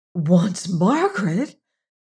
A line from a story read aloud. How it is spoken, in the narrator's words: gasped Julie, unaffected, so astonishing was the news, by her father's unusual sternness